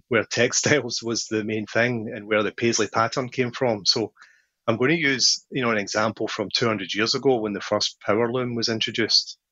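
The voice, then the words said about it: Scottish accent. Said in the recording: “you can probably tell by my accent that although I live in California, I'm not from California. I grew up in a town in Scotland”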